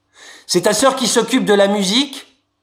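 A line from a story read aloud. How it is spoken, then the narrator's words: Shouting into ear. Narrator (French): je criais dans son oreille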